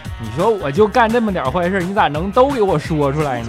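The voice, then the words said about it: Northeastern Chinese accent. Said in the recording (Chinese): “要不是你是东北口音”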